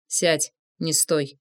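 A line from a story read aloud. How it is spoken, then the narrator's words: Quiet. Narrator (Russian): тихо сказал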